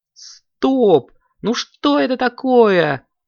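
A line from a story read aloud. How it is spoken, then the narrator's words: Exclaimed. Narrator (Russian): воскликнул Коржик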